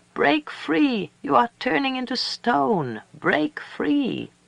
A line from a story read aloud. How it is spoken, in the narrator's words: She cried